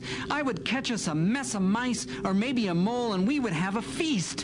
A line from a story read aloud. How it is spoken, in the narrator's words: mewed Sputters